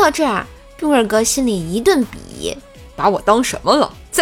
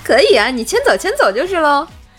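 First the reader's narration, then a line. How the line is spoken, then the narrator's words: Laughing heartily. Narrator (Chinese): 冰棍嫂哈哈大笑说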